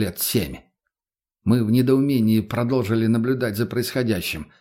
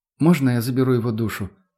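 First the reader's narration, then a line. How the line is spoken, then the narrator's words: Calm voice. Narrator (Russian): спокойным голосом спросил меня Петр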